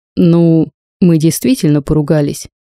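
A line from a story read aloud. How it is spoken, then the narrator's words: Plain. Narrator (Russian): ответил Владимир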